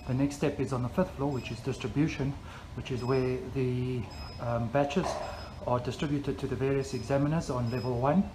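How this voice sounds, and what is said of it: Breathless, slightly panting speech. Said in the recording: “excuse me if I'm a bit out of breath. I've just walked up the stairs”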